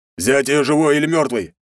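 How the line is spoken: Barking commander. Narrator (Russian): рявкнул командир

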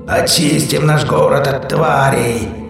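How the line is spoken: Hoarse executioner yelling. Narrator (Russian): хрипло орет чернокожий палач

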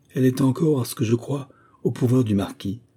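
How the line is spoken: Speech with deep sigh. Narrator (French): dit Théodore en poussant un profond soupir

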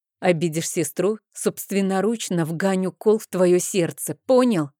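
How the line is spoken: Growl. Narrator (Russian): прорычала я

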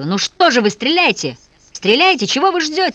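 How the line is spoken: Hysterical yelling. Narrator (Russian): истерически орал Вася

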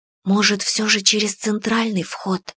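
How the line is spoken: Hopeful whispered question. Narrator (Russian): с надеждой спросила я шепотом

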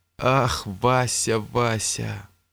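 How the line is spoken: Old man's sad sigh. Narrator (Russian): грустно вздохнул старик

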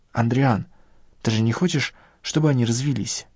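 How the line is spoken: Quiet. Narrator (Russian): тихо сказала Надежда

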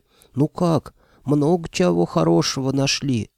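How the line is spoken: Solemn whisper. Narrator (Russian): торжественно прошептал

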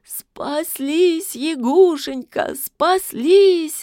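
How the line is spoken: Sobbing. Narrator (Russian): рыдала Василиса

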